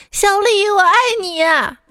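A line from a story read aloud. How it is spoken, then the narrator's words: Shouted. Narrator (Chinese): 他每天都在宿舍楼下喊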